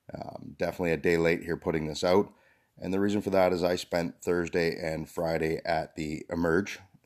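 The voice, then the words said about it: Slightly hoarse voice. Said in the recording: “You're going to hear a little bit of hoarseness in my voice.”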